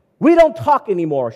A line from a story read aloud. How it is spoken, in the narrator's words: shouted my wife